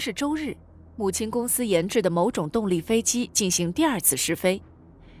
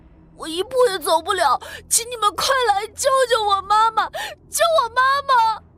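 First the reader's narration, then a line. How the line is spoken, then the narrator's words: Crying on phone. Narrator (Chinese): 秦山哭着对电话说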